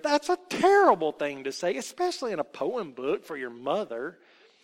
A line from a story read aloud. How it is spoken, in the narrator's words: exclaimed Aunt Sarah